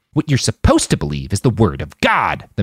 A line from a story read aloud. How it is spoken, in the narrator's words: the man snarled